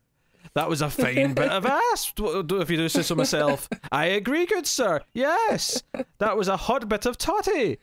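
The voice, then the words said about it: Pompous put-on British accent. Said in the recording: “they sound so British now ... my pompous ironic voice”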